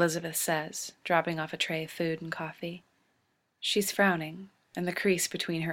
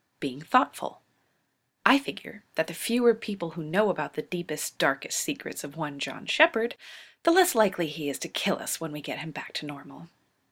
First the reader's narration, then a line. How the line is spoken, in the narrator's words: Rodney snaps